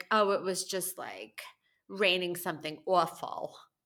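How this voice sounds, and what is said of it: New York accent with Southern phrases. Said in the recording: “my mom is like a little Italian New Yorker with an accent... she says southern phrases now with her New York accent”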